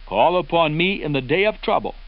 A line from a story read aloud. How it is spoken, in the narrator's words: the Lord says